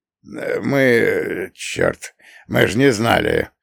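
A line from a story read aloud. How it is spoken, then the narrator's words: Muttering. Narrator (Russian): забормотал он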